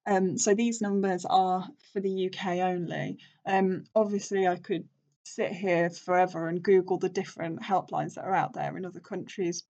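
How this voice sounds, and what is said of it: British accent. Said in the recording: “I'm obviously from the UK, if you couldn't tell from this beautiful accent.”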